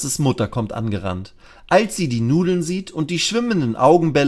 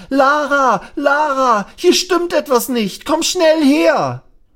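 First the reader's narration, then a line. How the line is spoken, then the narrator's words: Loud crying out. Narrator (German): schreit er laut auf und ruft Lasses Mama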